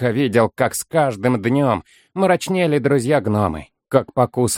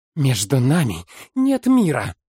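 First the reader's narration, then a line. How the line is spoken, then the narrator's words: Strangled hiss. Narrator (Russian): Услыхал хоббит сдавленное шипение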